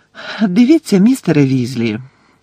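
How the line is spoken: Gentle, kind. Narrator (Ukrainian): лагідно мовила Герміона

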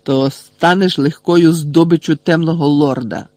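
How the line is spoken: Barked. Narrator (Ukrainian): гаркнув Снейп

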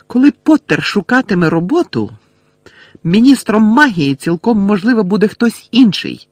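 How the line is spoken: Shout. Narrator (Ukrainian): крикнула МакГонагелл

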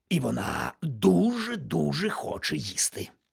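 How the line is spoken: Loud whisper. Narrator (Ukrainian): так само голосно прошепотів містер Вудчестер

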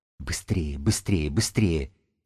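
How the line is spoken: Hoarse wheeze, frozen throat. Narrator (Russian): сипела белка окоченевшими связками

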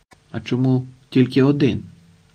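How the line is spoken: Quiet question. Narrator (Ukrainian): тихо запитав староста черкаський

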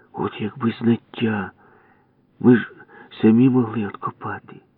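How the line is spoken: Sighing whisper in ear. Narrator (Ukrainian): Ява зітхнув і прошепотів мені на вухо

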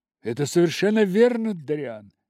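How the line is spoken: Exclamation. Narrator (Russian): воскликнул Холлоуорт

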